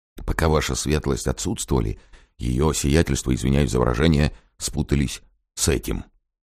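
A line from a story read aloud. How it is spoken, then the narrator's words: Quiet explanation. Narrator (Russian): так же тихонько пояснил мажордом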